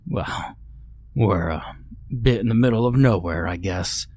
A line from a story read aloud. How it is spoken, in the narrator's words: Ted chuckled hoarsely